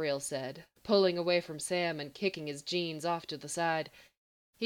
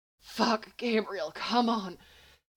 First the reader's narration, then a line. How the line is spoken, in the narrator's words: Sam panted